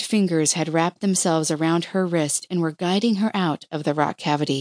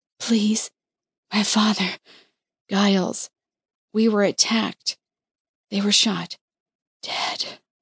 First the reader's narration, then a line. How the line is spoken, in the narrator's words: Struggling to move forward, Liza whispered